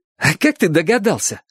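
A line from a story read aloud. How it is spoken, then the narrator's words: Joyful question. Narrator (Russian): спросил Чик радостно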